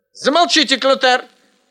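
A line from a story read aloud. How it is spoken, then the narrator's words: Shout mimicking teacher. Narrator (Russian): подражая учительнице, крикнул Ань-Янь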